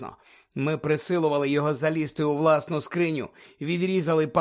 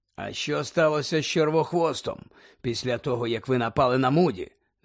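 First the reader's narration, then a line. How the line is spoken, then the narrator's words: Plain. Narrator (Ukrainian): запитав Дамблдор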